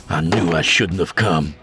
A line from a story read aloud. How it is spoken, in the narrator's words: he grumbled